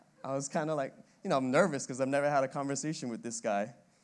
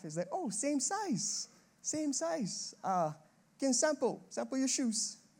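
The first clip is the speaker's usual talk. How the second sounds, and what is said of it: Put-on accent quoting someone. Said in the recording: “That's enough accent for us for tonight.”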